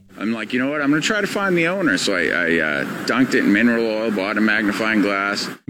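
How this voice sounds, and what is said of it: Maine accent. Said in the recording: “this is up in Maine. ... That's the accent.”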